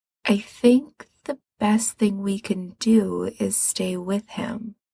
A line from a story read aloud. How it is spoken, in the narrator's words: he says slowly